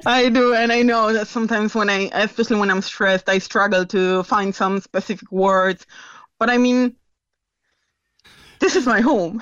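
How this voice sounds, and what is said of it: Non-local accent. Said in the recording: “you have a different accent”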